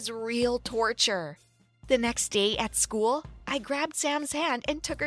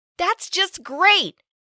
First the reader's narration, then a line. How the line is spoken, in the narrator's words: I complained loudly